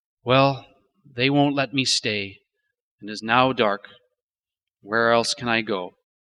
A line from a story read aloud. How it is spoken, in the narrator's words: He sighs and sadly says